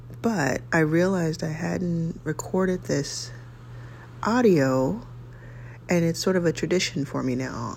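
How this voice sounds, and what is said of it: Early-morning voice. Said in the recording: “You can probably hear that in my voice. It's early.”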